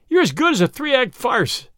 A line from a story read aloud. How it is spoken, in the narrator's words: he cried